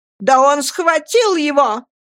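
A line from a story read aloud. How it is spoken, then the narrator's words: Shouting. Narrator (Russian): закричала мисс Мордстон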